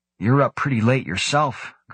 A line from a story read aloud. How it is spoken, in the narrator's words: Grant replied